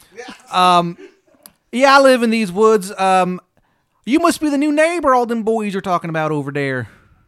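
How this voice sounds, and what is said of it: Exaggerated bad Maryland accent. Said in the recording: “She's got the shittiest Maryland accent you've ever heard in your fucking life.”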